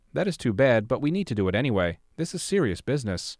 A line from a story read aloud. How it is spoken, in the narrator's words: calmly said